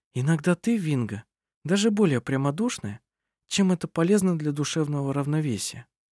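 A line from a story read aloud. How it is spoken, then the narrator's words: Muttered. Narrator (Russian): пробормотала она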